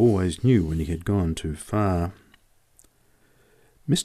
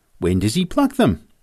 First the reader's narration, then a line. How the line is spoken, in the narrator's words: I exclaimed